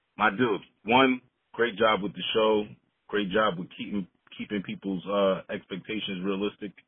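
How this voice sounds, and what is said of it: New York accent. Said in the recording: “from New York, and you guys will be able to tell by the accent.”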